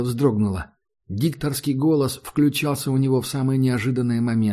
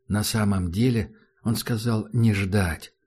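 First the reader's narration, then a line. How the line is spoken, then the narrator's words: Soft speech. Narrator (Russian): мягко произнес Таджик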